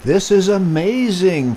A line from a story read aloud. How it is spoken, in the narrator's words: Freddy squealed